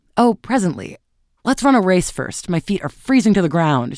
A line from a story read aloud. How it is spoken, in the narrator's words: she cried